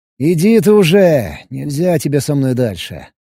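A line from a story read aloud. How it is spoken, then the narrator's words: Sighing. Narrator (Russian): вздохнул я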